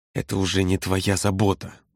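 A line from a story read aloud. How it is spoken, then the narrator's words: Hissed. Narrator (Russian): прошипел Володя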